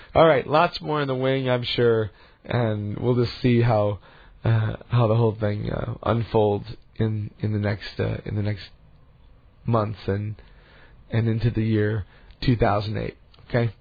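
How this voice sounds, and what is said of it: Slightly ragged voice. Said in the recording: “My voice is a little bit ragged still. ... But my cold is a lot better than it was last week.”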